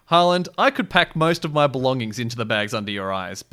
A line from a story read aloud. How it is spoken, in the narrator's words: Bucky answered